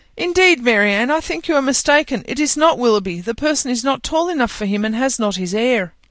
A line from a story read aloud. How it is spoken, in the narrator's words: Elinor cried out